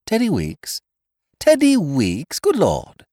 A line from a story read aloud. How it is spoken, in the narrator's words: I exclaimed